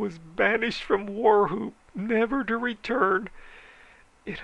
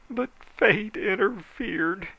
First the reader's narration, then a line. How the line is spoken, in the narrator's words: he moaned